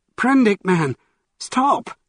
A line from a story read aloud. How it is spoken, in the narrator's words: cried Montgomery